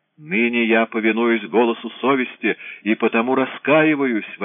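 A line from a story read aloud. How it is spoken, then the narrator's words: Wailing. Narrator (Russian): вопил Эврар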